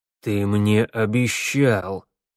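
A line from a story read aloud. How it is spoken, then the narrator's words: Through gritted teeth. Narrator (Russian): процедил змеевику мэр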